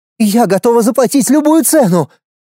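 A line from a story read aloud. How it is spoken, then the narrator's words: Desperate cry. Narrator (Russian): в отчаянии выкрикнула Луиза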